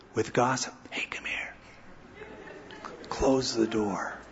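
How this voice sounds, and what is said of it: Lowered, hushed voice. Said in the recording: “Do you raise your voice or lower your voice when you say it? With news, you raise your voice.”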